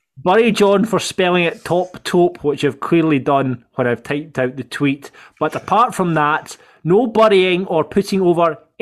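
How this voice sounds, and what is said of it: Strong accent, hard to understand. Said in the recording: “I'm just struggling to understand your accent... Could you slow down a little bit?”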